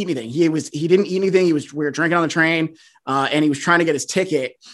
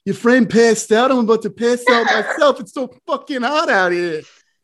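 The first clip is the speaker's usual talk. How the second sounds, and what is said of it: Imitates another person's voice. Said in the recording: “That's a really good impression ... That was a fantastic Marty Mush”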